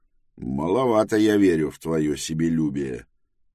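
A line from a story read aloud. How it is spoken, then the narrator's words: Grumble. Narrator (Russian): проворчал Тревис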